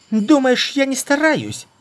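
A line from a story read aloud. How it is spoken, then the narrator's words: Shrill shriek. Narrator (Russian): Взвизгнула та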